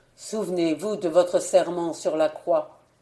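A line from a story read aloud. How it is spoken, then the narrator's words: Cold. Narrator (French): lui dis-je froidement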